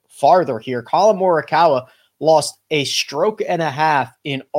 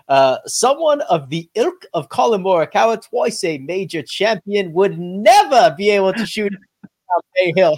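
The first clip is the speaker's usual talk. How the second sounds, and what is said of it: Poorly done put-on accent. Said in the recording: “The accent was desperate”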